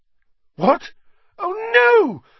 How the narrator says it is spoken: Hermione squeaked

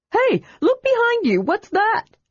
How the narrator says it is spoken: Tass cried

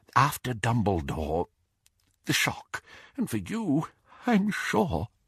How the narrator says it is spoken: he whispered

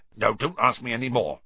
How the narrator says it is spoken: said Hagrid gruffly

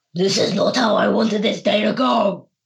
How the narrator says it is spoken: as they're running, they're screaming in Infernal

